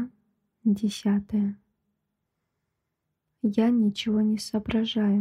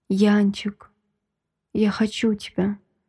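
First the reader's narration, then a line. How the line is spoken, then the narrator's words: Hoarse whisper. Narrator (Russian): шепчет хрипло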